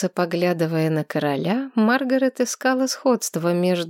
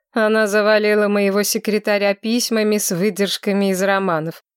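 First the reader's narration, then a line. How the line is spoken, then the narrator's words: Amused snort, king. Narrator (Russian): хмыкнул король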